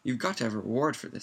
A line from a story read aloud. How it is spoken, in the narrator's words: said Mrs